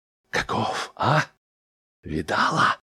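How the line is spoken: Whisper. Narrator (Russian): зашептал он кухарке

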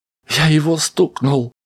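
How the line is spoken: Hysterical sobbing. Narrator (Russian): истерически всхлипывал Ян-младший

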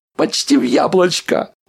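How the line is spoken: Squeak. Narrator (Russian): пискнул Рэнди

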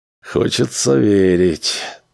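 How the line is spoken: Sighing. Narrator (Russian): вздохнул Дональдсон

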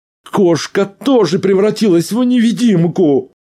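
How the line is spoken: Howling. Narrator (Russian): взвыл Арнольд

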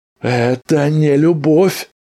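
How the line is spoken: Exclaimed. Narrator (Russian): воскликнул Саймон

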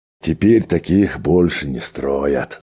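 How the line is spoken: Sighing. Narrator (Russian): вздохнул Джо

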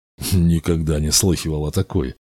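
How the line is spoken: Mutter. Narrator (Russian): пробормотал Ктесфион

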